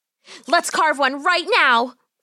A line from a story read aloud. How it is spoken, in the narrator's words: Polly cried out